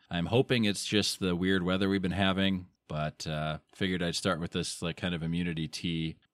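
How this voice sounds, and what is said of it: Slightly nasal, dry voice. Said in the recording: “my voice is a little nasally or dry”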